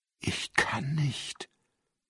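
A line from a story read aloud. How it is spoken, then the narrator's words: Whispering. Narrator (German): flüsterte er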